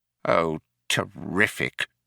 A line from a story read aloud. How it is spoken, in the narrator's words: muttered Fauk